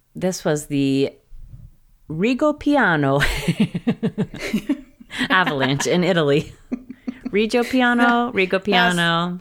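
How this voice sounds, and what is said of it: Italian accent on place name. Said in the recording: “It's a very good Italian accent.”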